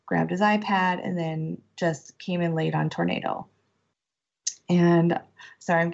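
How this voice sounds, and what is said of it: Tearful, emotional voice. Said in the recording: “getting emotional ... crying ... it was really like an ugly cry”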